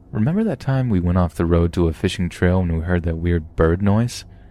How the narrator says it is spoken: My father chuckled an uncomfortable chuckle and told me this

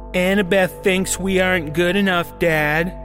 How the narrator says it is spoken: James yelled as he raced towards Father

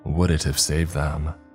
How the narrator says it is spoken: I sighed

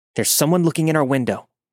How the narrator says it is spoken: yelled

